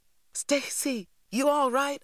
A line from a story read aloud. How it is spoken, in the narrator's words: I cried